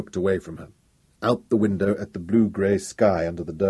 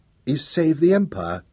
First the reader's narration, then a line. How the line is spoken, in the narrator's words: his voice faltered for a moment